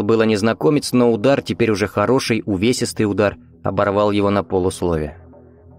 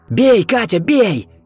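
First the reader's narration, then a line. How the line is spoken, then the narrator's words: Shout. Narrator (Russian): крикнул Виктор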